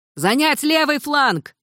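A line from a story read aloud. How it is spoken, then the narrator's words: Shouted command. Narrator (Russian): крикнул ей незнакомый командир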